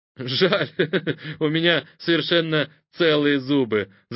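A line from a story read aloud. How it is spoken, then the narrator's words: Laughing. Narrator (Russian): засмеялся Сергей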